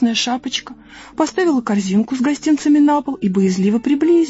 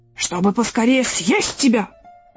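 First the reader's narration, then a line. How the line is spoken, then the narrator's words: Wolf's growl. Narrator (Russian): прорычал волк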